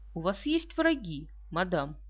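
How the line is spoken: Calm question. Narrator (Russian): Пуаро спокойно спросил

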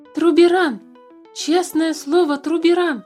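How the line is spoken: Shouting. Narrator (Russian): закричал Туупань

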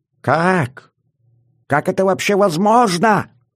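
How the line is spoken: Frantic hoarse yelling. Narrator (Russian): Брызжа слюной и срывая голос, орал Гитлер

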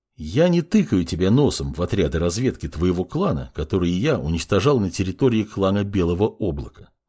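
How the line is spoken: Forced calm, even tone. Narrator (Russian): начал говорить подмастерье, стараясь держать тон голоса ровно и спокойно

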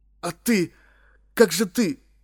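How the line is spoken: Sobbing. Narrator (Russian): всхлипнул я

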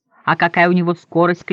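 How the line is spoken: Group shouting. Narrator (Russian): кричали мы

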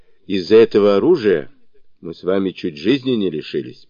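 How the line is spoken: Displeased old man. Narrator (Russian): проговорил старый князь недовольным тоном

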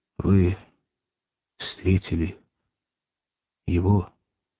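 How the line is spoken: Quiet. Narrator (Russian): тихо сказал Иван

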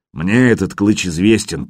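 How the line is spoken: Grumble. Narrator (Russian): проворчал Коваль

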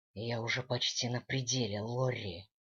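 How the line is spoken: Growl. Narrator (Russian): прорычал Дэниел

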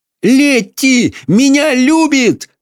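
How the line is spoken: Excited shout. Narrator (Russian): закричал Майкл

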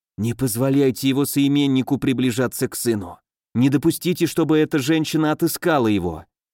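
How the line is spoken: Whisper. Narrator (Russian): Она шепнула Броку

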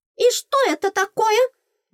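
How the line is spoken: Indignant squeak. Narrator (Russian): возмущенно пропищала она

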